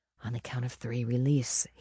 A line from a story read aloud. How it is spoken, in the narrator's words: whispered